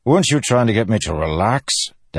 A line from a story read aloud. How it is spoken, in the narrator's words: Dalinar snapped